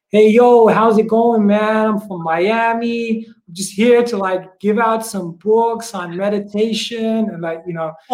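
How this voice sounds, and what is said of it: Weak put-on American accent. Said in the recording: “start doing American accents ... my American accent isn't that good”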